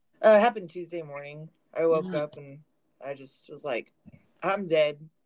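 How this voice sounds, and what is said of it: Funny-sounding sick voice. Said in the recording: “I had, like, bronchitis ... Sorry if my voice sounds funny.”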